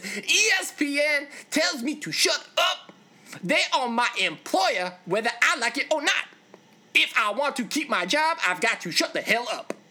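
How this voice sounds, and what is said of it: Imitates another person's voice. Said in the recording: “how awesome was my impersonation?”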